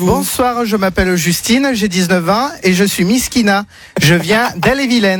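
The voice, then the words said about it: Put-on accent. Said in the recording (French): “Pourquoi il prend cet accent?”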